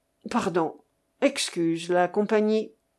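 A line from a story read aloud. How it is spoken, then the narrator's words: Faint, nearly gone voice. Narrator (French): fit-il d'une voix presque éteinte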